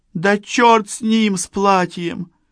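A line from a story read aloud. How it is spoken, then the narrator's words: Girl sobbing. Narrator (Russian): девушка всхлипнула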